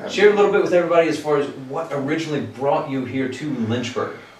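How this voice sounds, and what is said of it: Good radio voice. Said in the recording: “You have a great voice. Like, you got a good, like, radio voice.”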